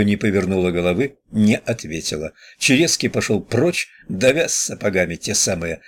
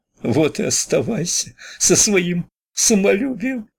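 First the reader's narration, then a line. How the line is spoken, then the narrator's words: Speaking through tears. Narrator (Russian): проговорила она сквозь слезы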